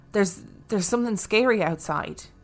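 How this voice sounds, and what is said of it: Shaken, frightened voice. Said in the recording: “in a shaken voice”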